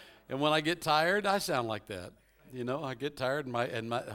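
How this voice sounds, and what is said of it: Usual voice. Nothing is said of it.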